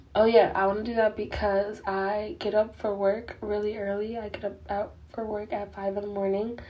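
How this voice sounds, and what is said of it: Voice giving out. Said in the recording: “my voice is like literally going out”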